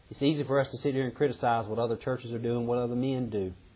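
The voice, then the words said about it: Southern American accent. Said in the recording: “I may be limited with this southern accent. I may use the word ain't a lot.”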